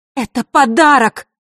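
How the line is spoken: Angry shout. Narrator (Russian): зло выкрикнула Василиса

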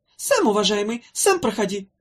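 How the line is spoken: Snapping irritably. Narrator (Russian): огрызнулся Хнык

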